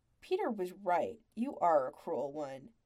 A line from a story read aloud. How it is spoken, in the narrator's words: grumbled around the last bite of pie